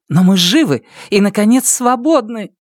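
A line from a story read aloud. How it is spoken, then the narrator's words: Exclaiming. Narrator (Russian): Карсис воскликнула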